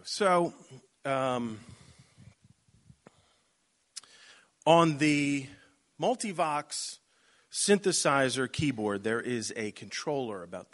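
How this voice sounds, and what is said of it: Baltimore accent. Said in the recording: “he's got a very particular Baltimore accent”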